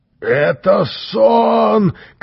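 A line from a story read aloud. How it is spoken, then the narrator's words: Panicked shout. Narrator (Russian): кричал кто-то из толстяков, закрывая глаза руками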